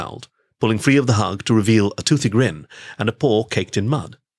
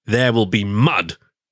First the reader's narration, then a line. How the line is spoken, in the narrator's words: he growled playfully at his little brother